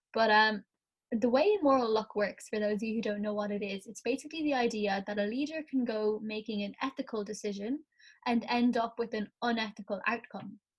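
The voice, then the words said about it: Croaky morning voice. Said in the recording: “It's also 10:40 in the morning, so my voice is a bit croaky”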